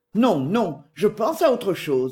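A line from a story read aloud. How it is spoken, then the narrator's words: Plain. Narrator (French): dit Lesca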